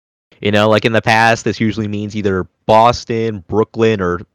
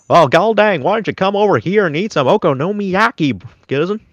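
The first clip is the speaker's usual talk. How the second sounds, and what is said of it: Exaggerated Southern country accent. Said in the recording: “Southern accents ... I can at least, like, understand, like, the country accent”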